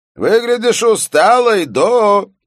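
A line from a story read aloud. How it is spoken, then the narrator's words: Shouting. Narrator (Russian): прокричал начальник редакции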